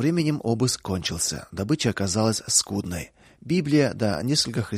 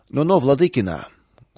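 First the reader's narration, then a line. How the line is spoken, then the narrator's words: Rough interruption. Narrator (Russian): грубо прервал старший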